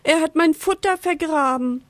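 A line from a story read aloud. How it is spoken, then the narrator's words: Sad bird cheeping. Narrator (German): piepst traurig der Vogel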